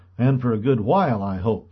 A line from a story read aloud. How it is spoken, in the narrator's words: said Mr